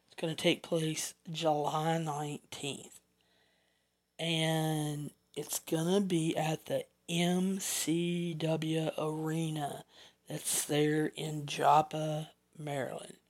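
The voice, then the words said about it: Mild Southern US accent. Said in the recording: “my southern accent. I don't think I have a strong southern accent, but I guess I have enough of one that some of you don't understand me”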